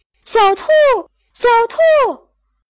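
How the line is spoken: Loud calling. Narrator (Chinese): 他大声地叫着

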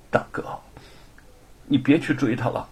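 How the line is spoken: Trembling, moved voice. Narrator (Chinese): 心中又隐隐升起一股暖意 声音颤抖地说

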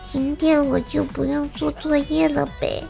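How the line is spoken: Chastened quiet mumble. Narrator (Chinese): 怪小兽被我训得低下头，小声嘟囔道

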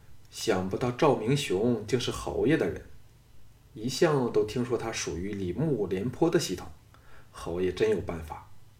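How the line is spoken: Sighing. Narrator (Chinese): 李元叹道

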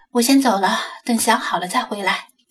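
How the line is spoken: Soft sighing. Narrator (Chinese): 他轻叹着说道

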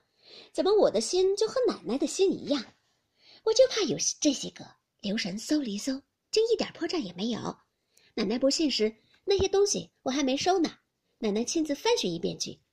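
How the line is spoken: Sly sneering laugh. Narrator (Chinese): 平儿 阴笑道

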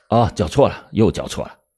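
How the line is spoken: Hasty covering up. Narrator (Chinese): 侦查员急忙掩饰着说

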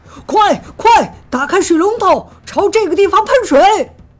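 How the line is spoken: Excited loud shouting. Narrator (Chinese): 消防队员激动地大声喊着

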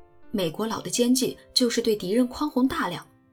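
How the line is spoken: Excited shouting. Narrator (Chinese): 弗雷德更是激动地嚷嚷了起来

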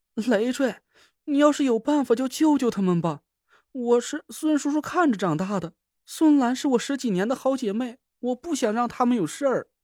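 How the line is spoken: Panicked, tearful voice. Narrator (Chinese): 田慧文一下子就慌了，他声音里带着哭腔

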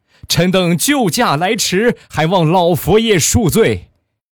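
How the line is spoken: Shouting. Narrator (Chinese): 大喊一声

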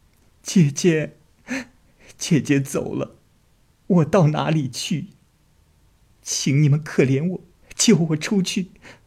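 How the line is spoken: Sobbing, choked. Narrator (Chinese): 冰娘大哭了起来，哽咽着说

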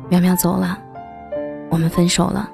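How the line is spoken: Hoarse, after a pause. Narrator (Chinese): 他顿了顿，声音沙哑的说

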